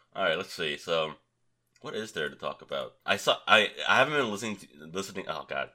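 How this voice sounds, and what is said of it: Sick, strained voice with coughing. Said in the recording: “I'm sure you can tell by my voice and how I talk. I'm really suffering when I'm talking. I can't talk for that long, before I start coughing uncontrollably.”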